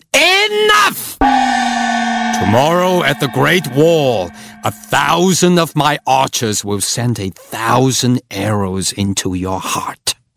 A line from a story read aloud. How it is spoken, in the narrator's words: Like a thunderclap, he boomed